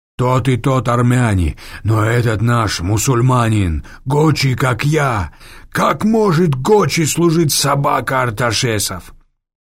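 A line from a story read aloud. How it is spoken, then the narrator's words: Frightened wail. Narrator (Russian): Перепуганный бандит завопил по-русски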